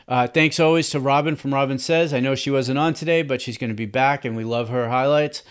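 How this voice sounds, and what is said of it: Boston accent. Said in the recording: “I'm from Boston. ... sometimes my accent will throw off the pronunciations of names”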